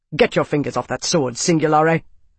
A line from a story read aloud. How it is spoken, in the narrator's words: Tavi said, his voice an abrupt whip-crack of authority